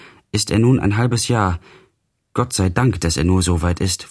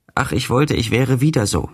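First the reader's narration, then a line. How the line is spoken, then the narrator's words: Plain. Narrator (German): sagte er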